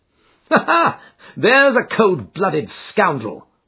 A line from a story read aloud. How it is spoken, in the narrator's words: said Holmes, laughing